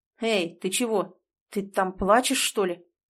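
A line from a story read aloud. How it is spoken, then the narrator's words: Frightened. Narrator (Russian): Испуганно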